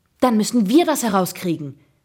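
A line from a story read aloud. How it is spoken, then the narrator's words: Eager, energetic call. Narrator (German): rief ich voller Tatendrang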